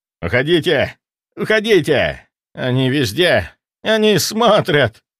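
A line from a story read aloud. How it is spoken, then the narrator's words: Hoarse, strained mutter. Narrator (Russian): бормотал он, и голос его был хриплым, сорванным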